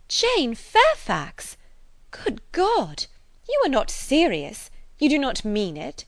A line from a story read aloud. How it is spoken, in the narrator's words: Emma with surprise, horror struck, exclaimed